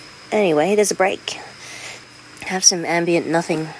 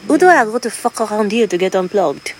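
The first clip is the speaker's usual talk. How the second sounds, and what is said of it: Weak put-on French accent. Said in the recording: “I'm not even doing my French accent very well.”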